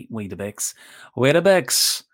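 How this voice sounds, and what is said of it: Put-on Northern Irish accent. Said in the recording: “one of the best ways to get into a Northern Irish accent.”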